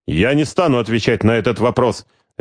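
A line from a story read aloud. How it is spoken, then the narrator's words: Sharp retort. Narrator (Russian): резко отреагировал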